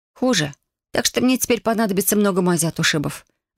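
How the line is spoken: Sorrowful sigh. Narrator (Russian): горестно вздохнула я

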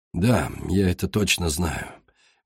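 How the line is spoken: Said softly. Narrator (Russian): мягко сказал Алистан

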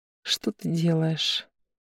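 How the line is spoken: Quiet whisper. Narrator (Russian): Тихо прошептала

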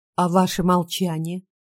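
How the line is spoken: Plain. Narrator (Russian): спросила я

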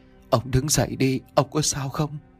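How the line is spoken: Trembling woman's voice. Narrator (Vietnamese): Giọng của bà run rẩy mà nói

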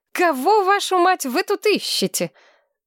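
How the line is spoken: Giggling guess. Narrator (Russian): Тамира хихикала и предполагала

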